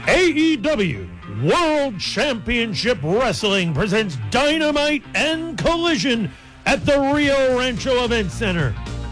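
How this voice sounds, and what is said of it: Michael Buffer-style announcer voice. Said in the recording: “my best Michael Buffer announcer voice”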